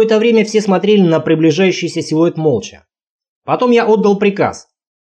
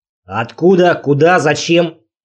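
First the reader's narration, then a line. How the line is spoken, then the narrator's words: Stern question in English. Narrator (Russian): строго спросил напарник по-английски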